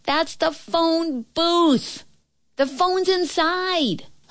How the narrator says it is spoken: the girl's voice shouted

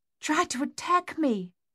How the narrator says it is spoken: their mother gasped

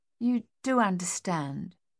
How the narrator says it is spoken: she said more gently

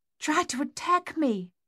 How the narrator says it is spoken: their mother gasped

